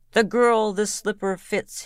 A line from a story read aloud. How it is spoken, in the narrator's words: he cried